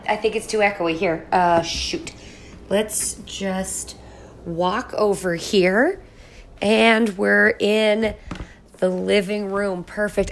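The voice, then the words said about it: Sick-sounding voice. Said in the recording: “I apologize for my voice. I've been pretty sick.”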